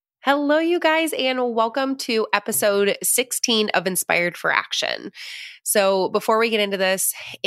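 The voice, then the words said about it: Congested, stuffy-nosed voice. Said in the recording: “I sound a little congested, it's because I am, because I always get sick this time of year”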